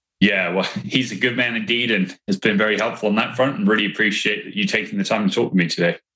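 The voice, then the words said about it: Non-American foreign accent. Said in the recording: “one of us has an accent, and it's probably me. No, obviously you hail from a location other than the United States of America originally”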